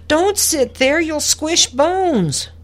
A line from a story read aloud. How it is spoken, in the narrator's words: Amelia screeched